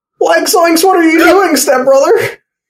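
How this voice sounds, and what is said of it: Cartoon character Shaggy voice impression. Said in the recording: “my shaggy impression”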